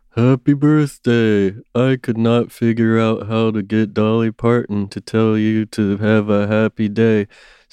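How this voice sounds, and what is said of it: Imitates another person's voice. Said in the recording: “my Brian impression”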